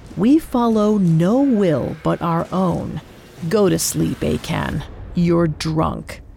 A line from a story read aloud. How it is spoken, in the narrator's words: Joash growled